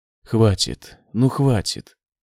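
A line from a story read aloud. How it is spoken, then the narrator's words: Pleading. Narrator (Russian): взмолился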